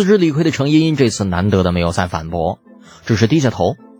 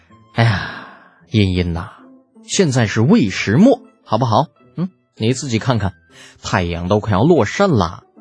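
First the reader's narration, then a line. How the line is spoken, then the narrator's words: Exasperated sigh. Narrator (Chinese): 李浩吐槽不能，叹了口气道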